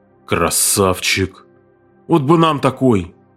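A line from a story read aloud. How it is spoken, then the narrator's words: Loud admiring exhale. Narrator (Russian): шумно выдохнул он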